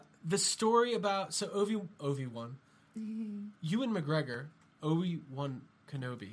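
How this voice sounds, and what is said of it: Usual voice. Nothing is said of it.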